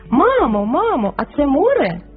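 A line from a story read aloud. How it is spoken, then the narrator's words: Excited toddler's shout. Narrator (Ukrainian): вигукнув трирічний карапуз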